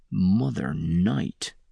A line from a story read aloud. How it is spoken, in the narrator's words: he whispered